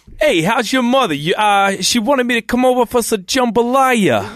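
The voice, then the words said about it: Put-on Louisiana Brooklyn accent. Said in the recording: “We're all going to do our best Vinny Brooklyn accent ... I want your best Louisiana Brooklyn accent.”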